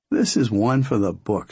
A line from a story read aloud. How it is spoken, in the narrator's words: she said, and laughed